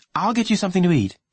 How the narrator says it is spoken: she said quickly

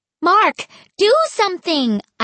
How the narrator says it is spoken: I shouted

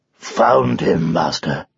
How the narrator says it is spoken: growled Arthur softly

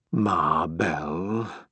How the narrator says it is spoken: Barrett said thickly

